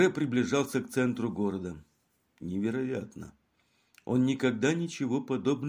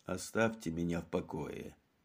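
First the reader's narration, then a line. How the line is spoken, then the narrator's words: Grumbling. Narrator (Russian): проворчал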